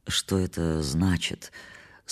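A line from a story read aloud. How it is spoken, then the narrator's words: Muffled question. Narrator (Russian): спросил я заглушенным голосом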